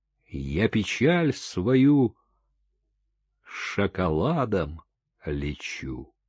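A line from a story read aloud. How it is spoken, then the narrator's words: Sad woman. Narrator (Russian): она грустно сказала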